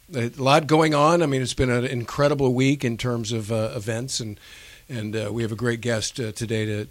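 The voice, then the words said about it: Voice sounds strained or unwell. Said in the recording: “I apologize for my voice”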